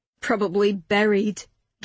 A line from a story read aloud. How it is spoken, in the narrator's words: Gavin snorted